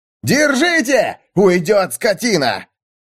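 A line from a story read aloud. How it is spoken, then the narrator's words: Shouting. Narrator (Russian): Это кричали Давиду и Мёрдоку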